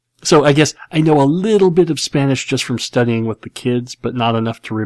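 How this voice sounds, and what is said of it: Usual voice. Nothing is said of it.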